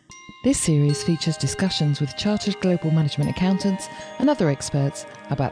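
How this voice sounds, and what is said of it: London accent, BBC-style delivery. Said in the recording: “Some of you might be able to place her accent, perhaps down to the quadrant of the city ... who's based in London ... perfected a BBC quality delivery”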